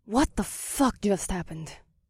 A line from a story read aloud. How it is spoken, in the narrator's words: Circe gasped quietly